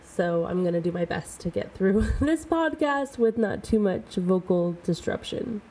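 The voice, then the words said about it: Slightly rough, altered voice. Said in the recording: “my voice sounds a little bit different ... my voice and my throat are still healing”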